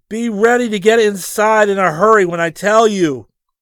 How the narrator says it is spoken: yelled

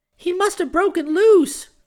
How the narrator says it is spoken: cried Chick

